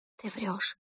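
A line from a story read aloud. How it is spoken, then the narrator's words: Whispered. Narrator (Russian): прошептала мама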